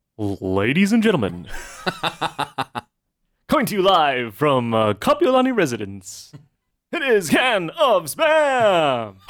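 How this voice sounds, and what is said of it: Announcer-style radio voice. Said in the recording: “the radio voice”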